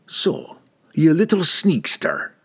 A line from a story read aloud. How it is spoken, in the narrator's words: Brunner growled into Don's face